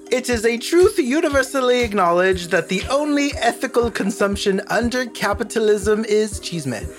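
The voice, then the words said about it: Dickensian Victorian teacher voice. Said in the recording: “Is that your Hunger Games voice? ... It was like my old Victorian teacher voice. ... Victorian teacher? ... Dickensian, perhaps?”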